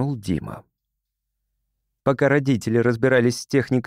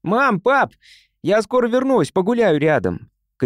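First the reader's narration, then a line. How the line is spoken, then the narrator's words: Child shouting. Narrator (Russian): крикнул мальчик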